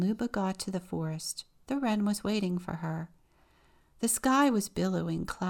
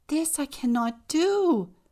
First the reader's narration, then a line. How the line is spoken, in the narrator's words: Luba cried